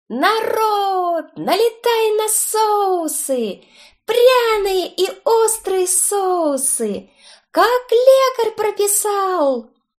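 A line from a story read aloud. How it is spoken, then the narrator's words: Loud trained singing voice. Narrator (Russian): заорали из лавки с соусами хорошо поставленным певческим голосом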